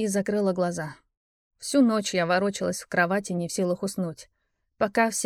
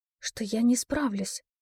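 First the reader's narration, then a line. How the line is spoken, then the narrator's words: Whispered answer. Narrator (Russian): также шепотом ответила я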